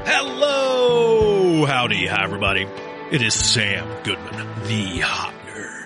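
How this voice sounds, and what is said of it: Announcer-style radio voice. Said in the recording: “radio voice?”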